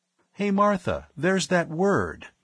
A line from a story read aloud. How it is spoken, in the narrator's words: Ivan Fitzgerald exclaimed